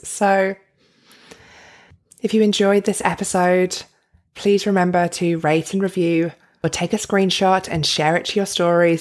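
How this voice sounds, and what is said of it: Australian accent. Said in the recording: “You can really hear the difference in my voice. I've definitely got more Aussie”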